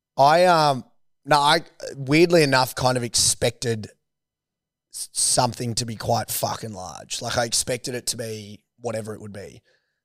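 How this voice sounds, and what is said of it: Strained, recovering lost voice. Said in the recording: “I lost my voice ... two boys need to go get your fucking voices looked up ... you're a mess ... I had hard runs up the middle fucking yesterday with my voice. So I'm coming good now.”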